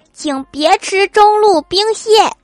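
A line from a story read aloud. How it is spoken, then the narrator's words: Angry roar. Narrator (Chinese): 郭晓霞怒吼道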